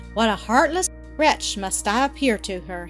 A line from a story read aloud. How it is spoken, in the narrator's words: he groaned